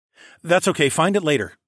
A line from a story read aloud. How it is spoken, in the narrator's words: I said hastily